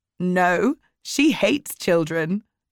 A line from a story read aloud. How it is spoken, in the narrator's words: I said, laughing